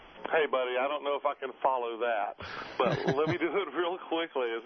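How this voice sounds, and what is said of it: Southern American accent. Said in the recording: “as you can tell from my voice, I'm a little bit Southern myself”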